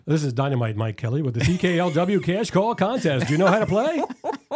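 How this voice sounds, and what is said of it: Announcer-style radio voice. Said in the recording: “you had a radio voice ... He's got the radio.”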